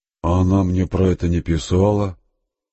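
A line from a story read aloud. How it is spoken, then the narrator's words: Dejected voice. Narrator (Russian): упавшим голосом проговорил Степан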